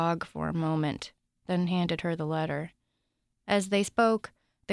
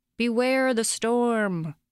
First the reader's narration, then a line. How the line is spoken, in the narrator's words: yelled